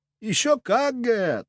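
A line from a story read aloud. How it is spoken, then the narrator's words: Giggle. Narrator (Russian): хихикнул артефактор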